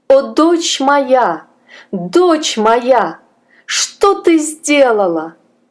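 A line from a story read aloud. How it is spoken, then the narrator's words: Desperate scream. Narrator (Russian): Госпожа Сюзанна закричала отчаянным голосом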